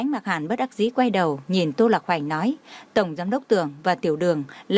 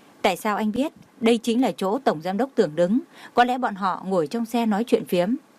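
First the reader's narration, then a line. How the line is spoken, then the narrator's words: Laughing speech. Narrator (Vietnamese): Tô Lạc Hoành nhịn không được bật cười nói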